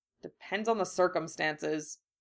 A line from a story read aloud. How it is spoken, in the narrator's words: Harry grumbled, smiling ruefully